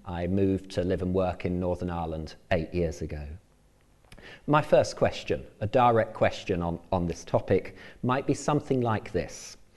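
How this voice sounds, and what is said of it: English accent. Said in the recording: “as you may well be able to tell from my accent, I come originally from England”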